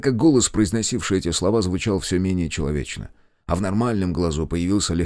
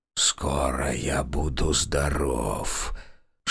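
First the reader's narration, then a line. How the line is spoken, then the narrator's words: Whispering with growing anticipation. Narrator (Russian): шептал он, но с каждым движением в его голосе все явственней слышалось предвкушение насыщения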